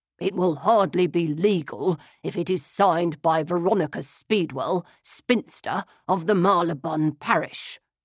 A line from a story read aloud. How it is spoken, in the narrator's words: he muttered